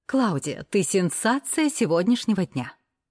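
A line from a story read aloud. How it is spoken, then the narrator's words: Loud announcement. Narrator (Russian): Громко объявляет Наташа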